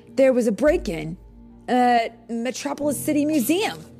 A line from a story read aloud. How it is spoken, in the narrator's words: he said excitedly